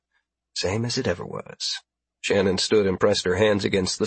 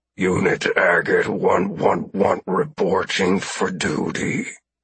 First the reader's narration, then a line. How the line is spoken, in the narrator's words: the doughboy said, his voice low and gravelly